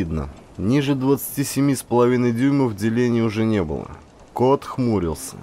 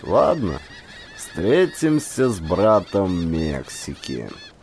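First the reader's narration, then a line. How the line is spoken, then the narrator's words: Creaky voice. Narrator (Russian): проскрипел Хеминг Горн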